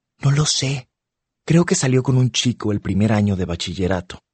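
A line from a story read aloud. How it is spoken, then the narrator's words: Whispered. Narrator (Spanish): me susurra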